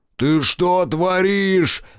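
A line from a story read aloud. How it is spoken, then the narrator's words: Roaring. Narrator (Russian): взревел Райдер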